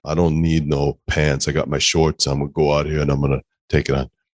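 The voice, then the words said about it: Imitates another person's voice. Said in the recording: “You always got to do the voice”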